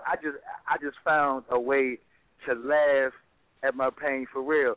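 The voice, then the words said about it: Imitates another person's voice. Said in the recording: “in my Kevin Hart voice”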